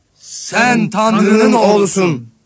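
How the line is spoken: Shouting. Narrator (Turkish): diye bağırarak

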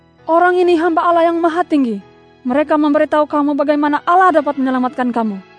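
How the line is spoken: Woman repeatedly crying out. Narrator (Indonesian): Hamba perempuan itu berseru-seru

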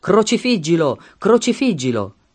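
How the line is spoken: Crowd shouting. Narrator (Italian): essi gridavano

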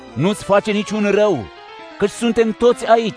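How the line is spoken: Loud shout. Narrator (Romanian): a strigat cu putere

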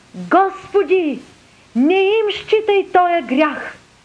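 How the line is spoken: Loud cry. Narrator (Bulgarian): извика със силен глас

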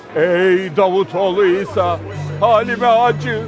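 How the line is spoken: Starting to shout. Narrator (Turkish): diye bağırmaya başladı

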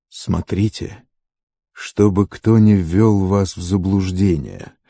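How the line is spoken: Plain. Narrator (Russian): ответил Иисус

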